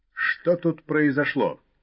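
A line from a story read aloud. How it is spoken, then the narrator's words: Stern question. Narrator (Russian): строго спросил сидящий за рулем сержант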